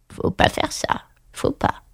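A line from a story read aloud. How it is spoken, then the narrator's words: Frog murmuring. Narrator (French): murmura la grenouille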